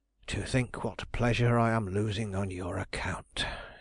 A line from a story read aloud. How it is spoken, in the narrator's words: grumbled